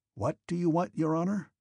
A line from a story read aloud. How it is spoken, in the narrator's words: asked an artilleryman standing close by who heard him muttering